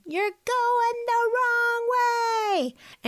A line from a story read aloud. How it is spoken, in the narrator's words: the one yelling